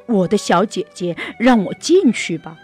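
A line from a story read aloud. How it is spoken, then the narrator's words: Calling out. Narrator (Chinese): 他叫道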